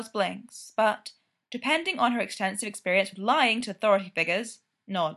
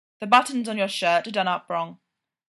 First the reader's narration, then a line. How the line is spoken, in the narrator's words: he says